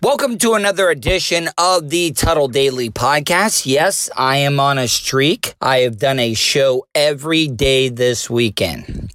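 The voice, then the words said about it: Unusually deep voice. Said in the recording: “sorry about my voice ... I don't think my voice sounds bad right now. It's just a lot deeper.”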